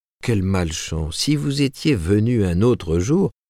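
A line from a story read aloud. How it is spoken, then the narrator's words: Honeyed tone. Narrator (French): commença Monsieur Ford d'un ton mielleux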